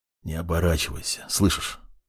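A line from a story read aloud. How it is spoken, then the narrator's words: Whispering. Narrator (Russian): прошептал в спину смертник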